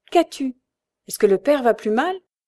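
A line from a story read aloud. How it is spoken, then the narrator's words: Alarmed tone. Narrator (French): dit-il d'un ton alarmé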